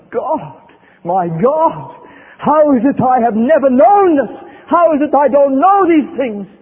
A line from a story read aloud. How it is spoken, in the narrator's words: she cried out from the depths of her soul